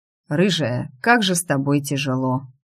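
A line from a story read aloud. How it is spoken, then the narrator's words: Sighing. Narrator (Russian): Отчего-то вздохнул Марко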